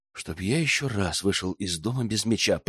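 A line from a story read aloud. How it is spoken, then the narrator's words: Young man muttering. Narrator (Russian): пробормотал парень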